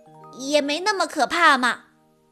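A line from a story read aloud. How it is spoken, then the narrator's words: Loud muttering. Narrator (Chinese): 毛毛大声念叨着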